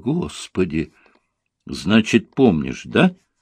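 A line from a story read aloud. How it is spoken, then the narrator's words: Calm. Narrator (Russian): спокойно сказала ей Настя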